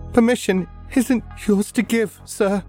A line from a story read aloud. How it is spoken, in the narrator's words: say, my voice quavering, a sob, all the requested torment pouring out through the words